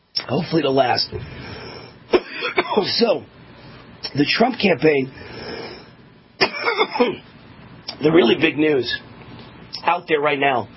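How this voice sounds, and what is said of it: Strained, fading voice. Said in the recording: “I'm losing my voice after a very long day of shooting a lot of shows and 6 TV commercials.”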